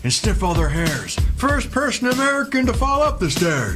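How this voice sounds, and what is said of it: Impression of a president's voice. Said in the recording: “two presidential impersonators”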